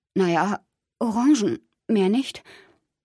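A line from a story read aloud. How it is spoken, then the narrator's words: Choked reply. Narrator (German): Ich antwortete mit erstickter Stimme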